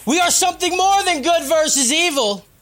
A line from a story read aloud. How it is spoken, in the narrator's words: Kyle shouted